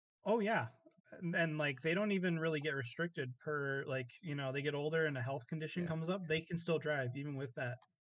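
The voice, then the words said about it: Midwestern American accent. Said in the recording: “I can really like hear your Midwestern accent ... the like second most like Midwestern person that I've met. Like just because of your accent.”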